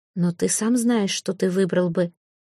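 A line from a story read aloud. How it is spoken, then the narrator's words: Insistent near-whisper. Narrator (Russian): почти шепотом настаивала она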